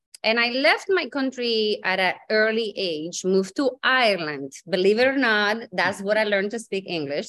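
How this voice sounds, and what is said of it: Slight Spanish accent in English. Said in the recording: “I do have a little accent and some people think maybe Kentucky, but it's not. I'm originally from Spain”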